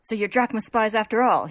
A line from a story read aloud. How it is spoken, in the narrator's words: he shouts